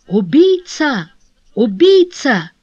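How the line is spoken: Exclaimed. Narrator (Russian): воскликнув

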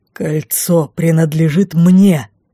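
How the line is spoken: Growled again. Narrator (Russian): Снова прорычал лорд Райф

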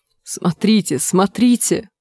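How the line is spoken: Exclaimed. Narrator (Russian): воскликнул Нат

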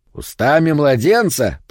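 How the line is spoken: Low booming voice. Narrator (Russian): прогудел бородатый грязнуля

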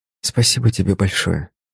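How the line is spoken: Quiet. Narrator (Russian): прозвучало тихо

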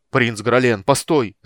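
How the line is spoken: Shouting. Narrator (Russian): закричал Арман

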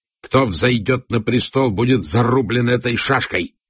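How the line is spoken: Prince's bark. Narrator (Russian): рявкнул принц

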